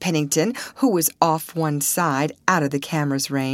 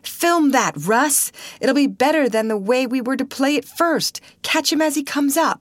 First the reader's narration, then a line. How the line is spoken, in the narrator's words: the manager, without the loss of a moment, cried